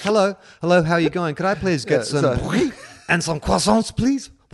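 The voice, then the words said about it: Put-on French accent, smooth, throaty. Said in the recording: “a Frenchman ... talks in a smooth accent ... reach deep into the throat, slightly louder voice”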